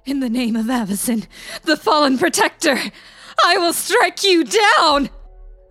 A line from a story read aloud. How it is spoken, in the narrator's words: The wail of a mad angel's voice rang out